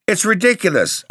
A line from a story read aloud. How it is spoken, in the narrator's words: cried